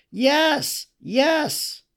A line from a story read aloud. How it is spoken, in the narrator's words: All cried out again